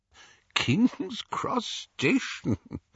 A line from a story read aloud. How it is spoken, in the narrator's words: Dumbledore was chuckling immoderately